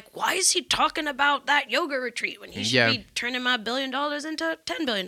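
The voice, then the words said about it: Put-on southern accent. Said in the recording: “I don't know why he has a southern accent.”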